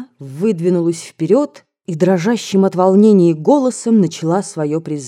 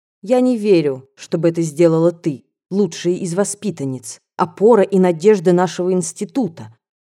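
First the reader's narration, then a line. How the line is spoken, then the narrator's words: Calm, sharp, warmth gone. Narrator (Russian): начала она спокойным и резким голосом, из которого исчезали все лучшие бархатные ласкающие ноты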